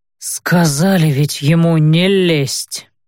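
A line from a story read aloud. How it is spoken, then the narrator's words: Sullen, through teeth. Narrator (Russian): хмуро процедил Макнелл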